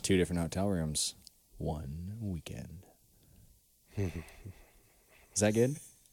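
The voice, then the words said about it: Deliberately low radio voice. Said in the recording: “radio voice ... You trying to make your voice a little lower? ... real low”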